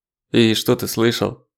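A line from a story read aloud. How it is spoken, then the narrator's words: Lifeless questioning voice. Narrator (Russian): безжизненным голосом спрашивает Ронин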